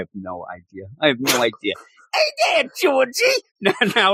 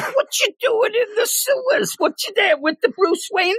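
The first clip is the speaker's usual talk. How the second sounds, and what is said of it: Pennywise clown voice impression. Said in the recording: “did a Pennywise impersonation. You said it was, that was like spot on ... Tim Curry.”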